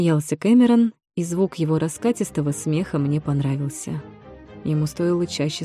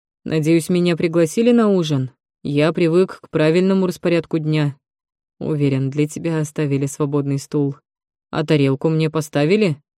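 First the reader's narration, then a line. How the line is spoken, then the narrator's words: Grumbling. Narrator (Russian): разворчался Волстон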